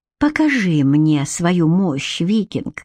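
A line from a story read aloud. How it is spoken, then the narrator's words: Breathy. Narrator (Russian): выдохнула она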